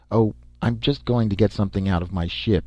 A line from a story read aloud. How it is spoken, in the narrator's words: said smoothly